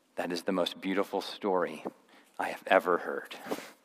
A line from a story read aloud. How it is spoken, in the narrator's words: she whispered